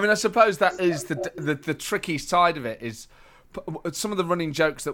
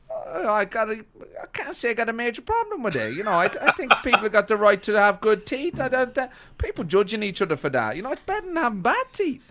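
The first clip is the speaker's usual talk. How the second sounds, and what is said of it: Deliberately bad imitation of another's voice. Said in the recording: “terrible impression of Roy Keane ... it's just so bad”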